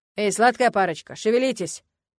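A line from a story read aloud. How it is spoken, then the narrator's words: Bellowed, boar. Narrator (Russian): гаркнул кабан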